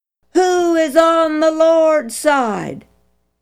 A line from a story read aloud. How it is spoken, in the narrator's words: stood to full height and shouted